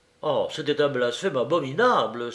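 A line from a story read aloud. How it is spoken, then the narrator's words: Scandalized exclamation. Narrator (French): s'écria Don Juan, scandalisé au dernier point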